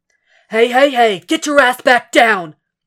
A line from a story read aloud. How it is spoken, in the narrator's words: Frank barks